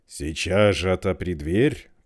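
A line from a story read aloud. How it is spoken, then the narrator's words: Growl. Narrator (Russian): прорычал волк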